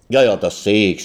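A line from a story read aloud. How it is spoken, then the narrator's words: Plain. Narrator (German): sagte der Antiquitätenhändler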